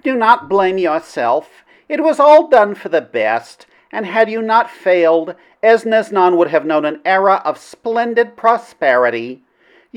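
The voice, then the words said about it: Princess character voice. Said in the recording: “do the princess voice. ... Gotta do the princess voice.”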